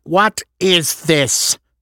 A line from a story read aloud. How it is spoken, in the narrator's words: Natasha snarled